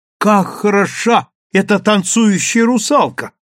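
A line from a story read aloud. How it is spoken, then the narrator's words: Admiring exclamation. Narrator (Russian): воскликнула Леа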